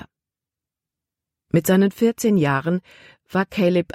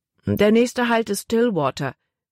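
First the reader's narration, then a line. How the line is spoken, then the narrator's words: Plain. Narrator (German): sagte er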